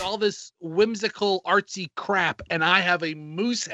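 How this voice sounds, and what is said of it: Usual voice. Nothing is said of it.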